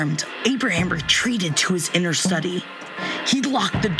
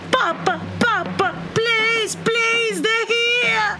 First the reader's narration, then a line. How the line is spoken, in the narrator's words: the babe, Brandon, its screech